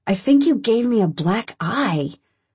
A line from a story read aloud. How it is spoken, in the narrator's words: I moan